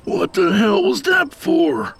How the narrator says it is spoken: Tony moaned as he tented his fingers over his throbbing nose

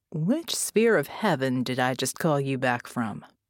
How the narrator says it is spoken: I laugh

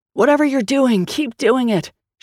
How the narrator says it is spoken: shouted Grace from underneath the demon

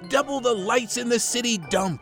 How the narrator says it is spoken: he shouted

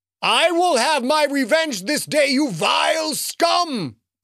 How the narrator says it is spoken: the booming voice called

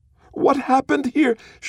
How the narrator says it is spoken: she screams at Asha Thai

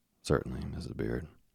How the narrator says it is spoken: I said

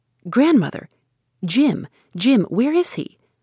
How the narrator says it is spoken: asked in an alarmed voice

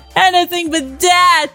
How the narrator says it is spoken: screamed Owen

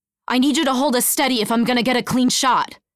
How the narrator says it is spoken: shouted Dakota over the blaring alarm

